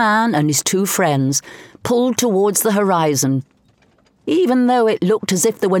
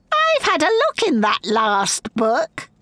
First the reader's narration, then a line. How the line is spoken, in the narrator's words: cackled Evermore